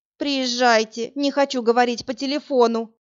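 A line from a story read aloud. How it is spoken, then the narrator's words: Whining. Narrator (Russian): прохныкала Анжелка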